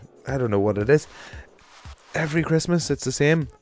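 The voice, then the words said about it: Congested, under-the-weather voice. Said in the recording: “as you can hear from my voice, I am incredibly, incredibly dosed at the minute”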